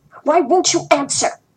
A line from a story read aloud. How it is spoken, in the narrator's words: Yin Lan Lan roared at me